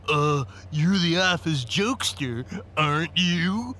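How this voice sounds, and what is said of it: Stuffy, pompous voice. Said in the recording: “He said in a stuffy voice.”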